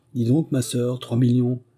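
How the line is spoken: Exclaiming. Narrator (French): s'écria de son côté Pauline, en bondissant comme un jeune chevreau

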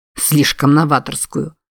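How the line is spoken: Snorting. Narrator (Russian): фыркнул Джордж

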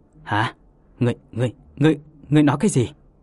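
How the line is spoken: Trembling. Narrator (Vietnamese): La Lập run rẩy không thôi

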